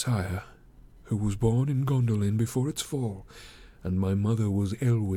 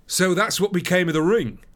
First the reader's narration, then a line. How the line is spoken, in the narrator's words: he cried